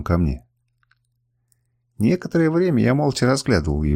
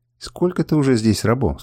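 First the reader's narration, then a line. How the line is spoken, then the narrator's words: Plain. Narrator (Russian): спросил я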